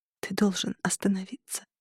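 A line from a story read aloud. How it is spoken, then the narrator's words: Whisper. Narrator (Russian): прошептала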